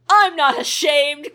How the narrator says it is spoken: Clifton shrieked

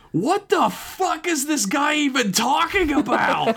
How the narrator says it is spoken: Alyssa screamed out

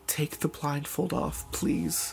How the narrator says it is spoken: I begged, my legs turning to jelly

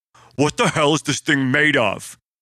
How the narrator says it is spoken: Tank yelled in frustration

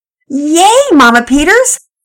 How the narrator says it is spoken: Penelope shouted

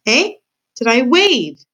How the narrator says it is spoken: shouted the pea

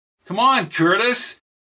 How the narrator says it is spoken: Peter yelled

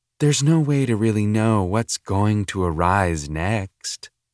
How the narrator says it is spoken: the instructor said

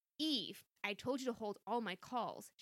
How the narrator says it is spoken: she snapped at her assistant through the line

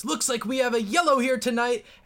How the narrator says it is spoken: the announcer yells

